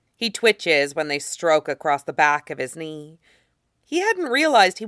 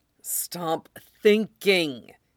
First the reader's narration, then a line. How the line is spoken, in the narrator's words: hisses to himself